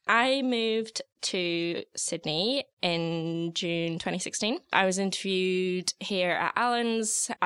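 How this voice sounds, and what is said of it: Non-Australian accent, Canadian-sounding to some. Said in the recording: “you obviously have a bit of an accent and it's delightful to listen to... Apparently Australians get a bit confused when they hear my accent because a lot of people ask whereabouts in Canada I'm from.”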